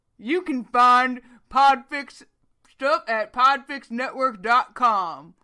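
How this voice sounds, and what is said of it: Deep manly character voice. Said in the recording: “I'll do it in my manly Stanley voice”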